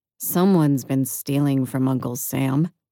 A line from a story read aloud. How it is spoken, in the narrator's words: I muttered